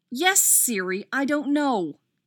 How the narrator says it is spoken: Izzy snapped

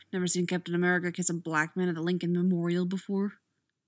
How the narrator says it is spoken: Sam mutters to himself

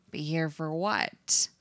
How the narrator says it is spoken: Eddie asks

